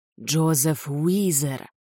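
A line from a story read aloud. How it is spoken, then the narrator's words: Whispered. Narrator (Russian): прошептала она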